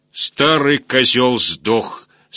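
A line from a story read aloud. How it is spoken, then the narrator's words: Loud. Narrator (Russian): сказал он громко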